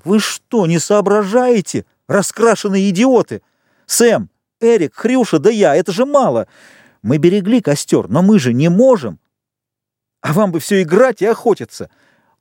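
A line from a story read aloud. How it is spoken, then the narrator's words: Thin, faltering shout. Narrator (Russian): Непослушным, тоненьким голосом он закричал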